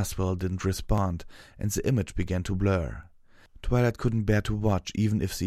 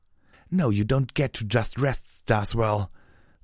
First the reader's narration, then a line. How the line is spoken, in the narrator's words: Clover snarled